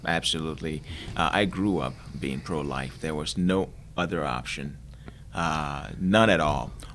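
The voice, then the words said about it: Nigerian accent. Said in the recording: “You're from Nigeria. ... We recognize an accent. ... it's a beautiful accent.”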